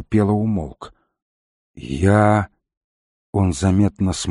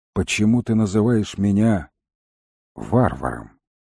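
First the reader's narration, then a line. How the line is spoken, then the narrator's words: Gloomy question. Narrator (Russian): мрачно спросил волкодав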